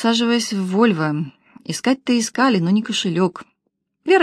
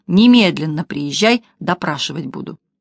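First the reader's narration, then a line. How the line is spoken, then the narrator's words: Stern command. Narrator (Russian): Александр Михайлович грозно велел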